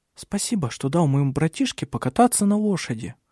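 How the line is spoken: Soft female voice. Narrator (Russian): мягко сказала она

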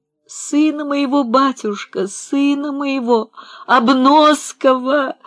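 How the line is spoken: Sobbing. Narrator (Russian): зарыдала Марья Ивановна

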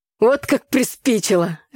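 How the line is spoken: Father laughing. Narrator (Russian): рассмеялся отец

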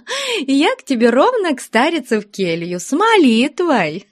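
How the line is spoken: Laughing. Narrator (Russian): Смеясь, сказала Фленушка

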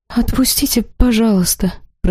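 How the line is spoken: Embarrassed girl whispering. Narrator (Russian): прошептала вмиг покрасневшая девушка

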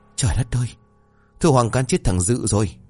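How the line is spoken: Trembling, terrified. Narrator (Vietnamese): Bà Thìn mặt mày tái mét run rẩy rồi bảo

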